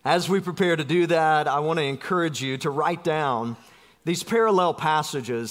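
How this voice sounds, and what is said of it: South Georgia Southern US accent. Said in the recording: “as fast as my South Georgia dialect will let me”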